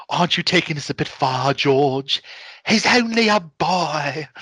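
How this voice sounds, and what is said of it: Impression of a female character's voice. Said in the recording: “I try to do a good impression of her.”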